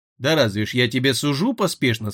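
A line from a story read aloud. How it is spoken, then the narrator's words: Plain. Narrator (Russian): сказал Фес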